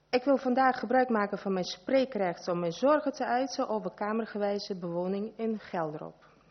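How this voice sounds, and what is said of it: Non-native accent speaking Dutch. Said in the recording (Dutch): “Ik heb een accent”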